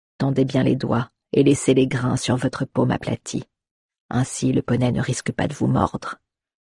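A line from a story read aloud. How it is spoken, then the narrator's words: Quiet advice. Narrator (French): lui conseilla-t-il à voix basse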